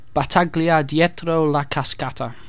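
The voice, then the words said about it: Put-on Spanish accent. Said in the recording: “I'm going to pronounce it in a Spanish accent.”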